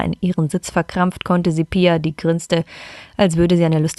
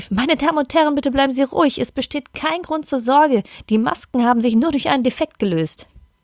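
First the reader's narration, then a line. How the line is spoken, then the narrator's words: Calling out, announcement. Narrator (German): eine Stewardess durch die Bullen rief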